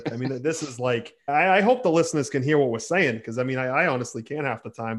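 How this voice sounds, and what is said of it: Boston accent. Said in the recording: “brings a certain Boston voice to the show”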